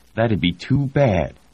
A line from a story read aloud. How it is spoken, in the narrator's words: Edith said, her voice brittle with anger